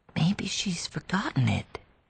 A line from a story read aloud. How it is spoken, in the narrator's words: Maddie said in a tremulous whisper